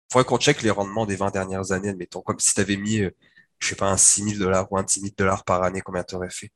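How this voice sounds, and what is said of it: Sick voice from the flu. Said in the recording (French): “surtout avec cette voix-là, avec la grippe en plus, tu as l'air une alien”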